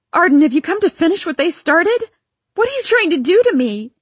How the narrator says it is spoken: I screamed ... shouted

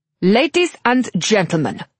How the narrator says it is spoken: an accented voice boomed

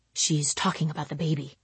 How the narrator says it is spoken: I murmur to him

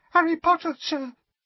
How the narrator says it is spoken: squeaked the elf, trembling from head to foot

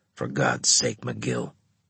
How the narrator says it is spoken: Harris muttered

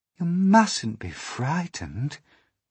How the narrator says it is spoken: the ladybird said kindly

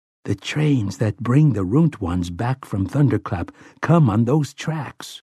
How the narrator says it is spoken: he murmured to Oi

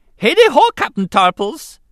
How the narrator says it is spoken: Jar Jar greeted the leader of the squad cheerfully

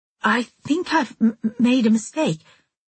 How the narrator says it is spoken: I stammered, hoping he wouldn't notice the change of voice

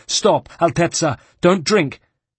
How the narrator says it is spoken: exclaiming

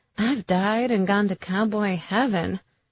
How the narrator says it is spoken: Karina purred

